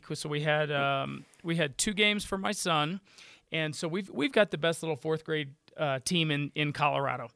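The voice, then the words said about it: Hoarse, strained voice. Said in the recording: “my voice is not like usual. I lost my voice”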